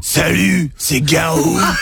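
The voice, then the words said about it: Imitates another person's voice. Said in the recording (French): “c'est mon imitation”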